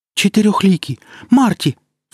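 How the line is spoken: Sharp cry. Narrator (Russian): вскрикнула Каирис

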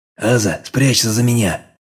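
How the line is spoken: Quiet whisper. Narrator (Russian): тихо шепнул

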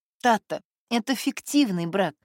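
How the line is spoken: Sighing. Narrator (Russian): вздохнула Катя

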